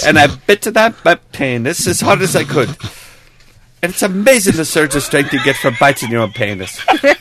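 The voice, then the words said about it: Terrible sing-songy Welsh accent. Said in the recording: “The accent makes it. ... It's a terrible Welsh accent. ... because it's so sing-songy.”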